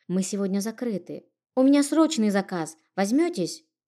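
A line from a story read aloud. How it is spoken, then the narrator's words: Timid boy asking. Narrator (Russian): робко спросил мальчишка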